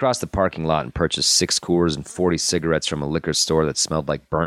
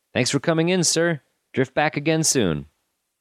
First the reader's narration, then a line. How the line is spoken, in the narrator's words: the boy called out to him